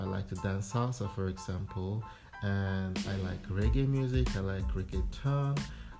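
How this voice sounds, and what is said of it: Thick Nigerian accent. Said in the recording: “I may speak in a very thick Nigerian accent”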